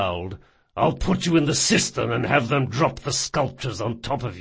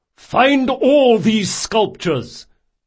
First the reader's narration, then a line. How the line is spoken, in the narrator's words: Reynard yelled